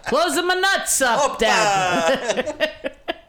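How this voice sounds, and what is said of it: Shouted put-on unidentified accent. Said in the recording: “I just heard a neighbor shout that to his Greek dad ... I don't know what accent my neighbor has there that I just gave him”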